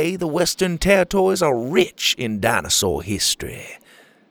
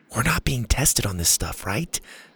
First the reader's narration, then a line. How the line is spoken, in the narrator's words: Zada whispered to Bo